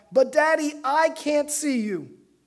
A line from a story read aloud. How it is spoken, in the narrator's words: the little boy yelled back